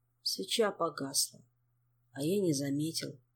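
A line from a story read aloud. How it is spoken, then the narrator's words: Quiet, colorless voice. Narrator (Russian): тихим бесцветным голосом пояснил Жак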